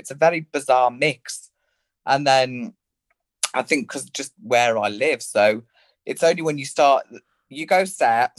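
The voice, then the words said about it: Rural Birmingham English accent. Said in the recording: “my accent is it's like a Birmingham country farmer hybrid, but everyone thinks I'm from Liverpool”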